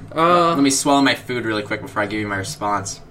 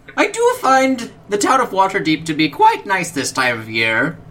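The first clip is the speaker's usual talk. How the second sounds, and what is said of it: Falsetto character voice. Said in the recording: “falsetto. It's falsetto.”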